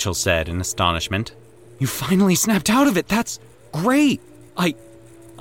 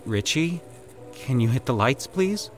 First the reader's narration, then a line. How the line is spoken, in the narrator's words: Mitchell said uneasily